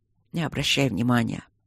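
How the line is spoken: Duke's mutter. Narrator (Russian): пробормотал герцог

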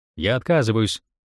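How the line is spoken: Plain. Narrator (Russian): сказал Кларенс

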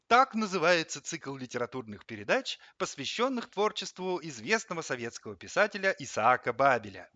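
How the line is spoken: Brisk rapid chatter. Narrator (Russian): бодро затараторил он

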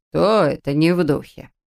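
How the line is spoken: Displeased question. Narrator (Russian): Недовольным тоном спросил папа Эрл

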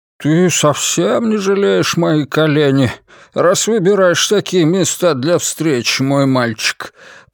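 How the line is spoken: Creaky voice. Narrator (Russian): проскрипел Бернар Лебо

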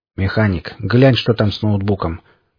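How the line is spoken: Calm voice. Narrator (Russian): произнес спокойным голосом

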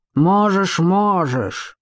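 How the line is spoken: Guard growling. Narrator (Russian): прорычал страж

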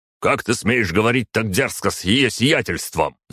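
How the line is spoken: Roaring fighter. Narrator (Russian): взревел один из бойцов

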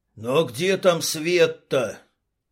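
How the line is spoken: Grumble. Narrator (Russian): Пробурчал кто-то

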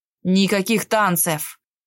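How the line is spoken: Menacing beastly growl. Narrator (Russian): прорычал грозным зверем

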